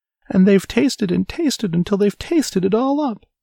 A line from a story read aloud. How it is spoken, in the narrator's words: squealed the baby bear